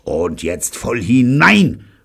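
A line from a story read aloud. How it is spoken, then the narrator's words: Grim shout. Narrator (German): schrie grimmig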